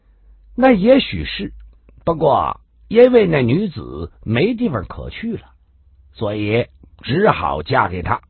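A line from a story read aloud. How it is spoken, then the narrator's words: Sneering. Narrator (Chinese): 华华凤听到这儿冷笑的说道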